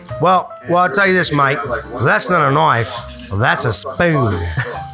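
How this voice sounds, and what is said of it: Put-on Australian accent. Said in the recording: “And that was Australian.”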